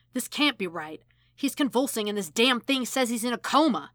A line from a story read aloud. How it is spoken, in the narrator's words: McCoy growls